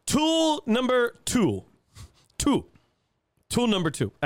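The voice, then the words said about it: Bad Count impression, counting voice. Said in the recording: “I had to get a bad count impression.”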